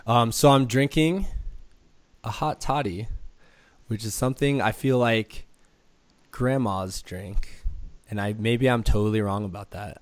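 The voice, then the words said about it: Hoarse voice from a cold. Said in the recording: “if you can't tell from my amazingly sexy voice right now, I have a little bit of cold”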